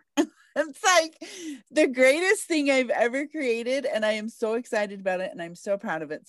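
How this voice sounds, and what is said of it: Smiling, giddy excited voice. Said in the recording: “y'all can hear the smile in her voice ... busting out over here, just getting super excited ... I'm giddy over it”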